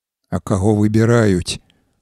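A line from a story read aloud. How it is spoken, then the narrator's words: Deflated voice, asking. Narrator (Belarusian): апалым голасам запытаўся Чэсь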